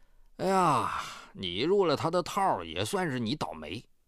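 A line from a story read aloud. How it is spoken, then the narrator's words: Sighing. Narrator (Chinese): 刘国华叹息道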